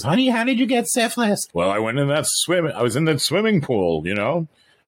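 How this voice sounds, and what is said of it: High-pitched imitation of another person. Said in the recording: “awful high-pitched impersonation of somebody”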